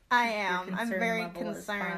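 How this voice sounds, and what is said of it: Flat monotone delivery. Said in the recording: “monotone dead ... expression”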